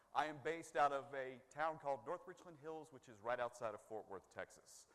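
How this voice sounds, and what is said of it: Hybrid North Carolina-Texas accent. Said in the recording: “I do have an accent that may come in and out sometime. And it's kind of a hybrid North Carolina-Texas accent”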